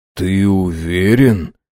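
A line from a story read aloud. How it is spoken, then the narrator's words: Very quiet question. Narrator (Russian): очень тихо спросил Линкольн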